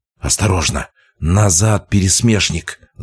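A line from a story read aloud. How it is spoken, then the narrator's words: Hissed warning. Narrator (Russian): зашипела она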